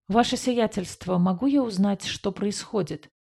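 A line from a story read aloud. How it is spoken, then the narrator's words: Quiet, puzzled question. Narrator (Russian): тихо спросил авиакранц, с недоумением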